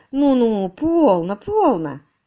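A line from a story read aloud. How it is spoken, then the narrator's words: Tender. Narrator (Russian): ласково сказал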